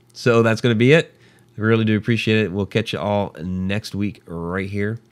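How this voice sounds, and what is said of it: Hoarse, fading voice. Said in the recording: “I'm really losing my voice now.”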